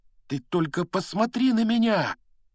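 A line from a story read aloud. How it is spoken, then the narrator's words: Exclaimed. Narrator (Russian): воскликнул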